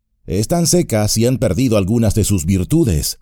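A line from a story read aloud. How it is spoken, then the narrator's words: Plain. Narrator (Spanish): dijo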